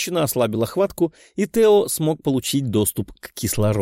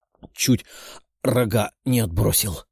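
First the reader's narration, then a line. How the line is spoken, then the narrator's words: Groaning young man. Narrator (Russian): простонал парень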